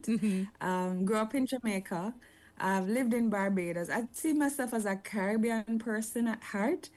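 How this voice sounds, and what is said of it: Jamaican accent. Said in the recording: “I'm Jamaican, as you probably can tell from my accent.”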